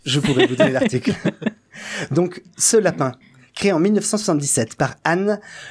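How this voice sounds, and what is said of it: Usual voice. Nothing is said of it.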